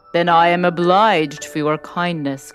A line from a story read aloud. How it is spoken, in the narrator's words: growled the beast